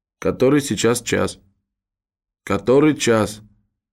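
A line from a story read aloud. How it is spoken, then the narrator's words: Pale, muttering to no one. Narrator (Russian): с зеленовато-бледным лицом пробормотала, ни к кому конкретно не обращаясь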